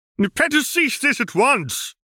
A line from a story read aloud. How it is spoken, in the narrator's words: he bellowed